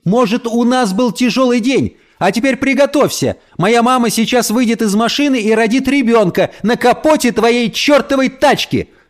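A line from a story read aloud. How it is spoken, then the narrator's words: Screaming at full voice. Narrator (Russian): завопила Эльса во все горло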